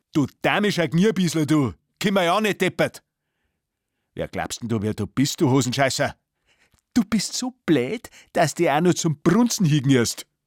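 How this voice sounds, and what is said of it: Bavarian dialect rant. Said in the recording (German): “Natürlich auf bayerisch.”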